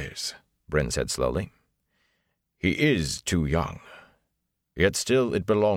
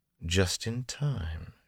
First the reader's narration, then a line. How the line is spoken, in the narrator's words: she murmured